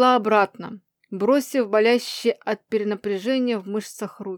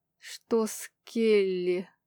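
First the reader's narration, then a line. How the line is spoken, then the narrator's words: Strained hoarse rasp. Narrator (Russian): Прихрипела, неспособная говорить нормально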